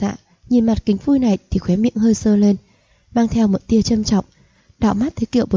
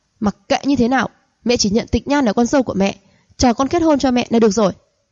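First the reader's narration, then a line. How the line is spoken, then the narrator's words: Angry, breathing hard. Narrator (Vietnamese): hít sâu mấy hơi tức giận nói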